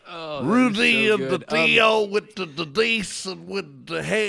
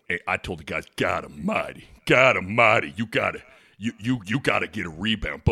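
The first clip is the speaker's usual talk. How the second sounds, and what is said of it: Imitates a basketball coach's voice. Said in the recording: “Kansas head coach Bill Self impression”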